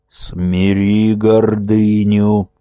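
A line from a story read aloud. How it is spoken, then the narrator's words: Muffled admonishing elder. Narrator (Russian): глухо увещевал владыка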